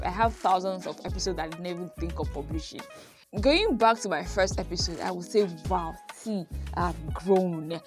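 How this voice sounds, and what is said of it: Beninese-accented English. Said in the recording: “my Benin accent and everything ... the Benin accent thing ... It's still there”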